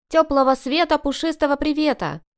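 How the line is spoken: Cheerful loud cry. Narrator (Russian): бодро заголосил Люсик

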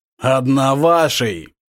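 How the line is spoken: Growl. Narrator (Russian): прорычал он

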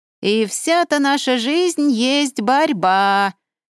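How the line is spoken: Off-key thin shrill singing. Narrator (Russian): Фальшиво пропела она противным тоненьким голосом

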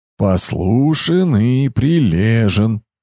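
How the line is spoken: Singsong. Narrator (Russian): повторил он нараспев

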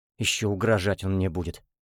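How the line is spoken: Muttered. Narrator (Russian): пробормотал он

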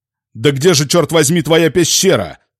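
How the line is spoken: Roared into ear. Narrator (Russian): проревел я в ухо Хансу

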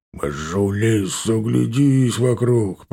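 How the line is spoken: Grumbling. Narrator (Russian): проворчал тот в ответ

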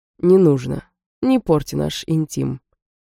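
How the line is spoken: Insolent drawling voice. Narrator (Russian): заговорил со мной нахально тягучим голосом взломщик

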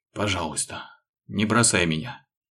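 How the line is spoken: Hoarse pleading. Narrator (Russian): Вновь с мольбой прохрипел незнакомец

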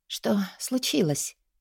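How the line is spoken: Hoarse question. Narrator (Russian): Хрипло поинтересовалась я

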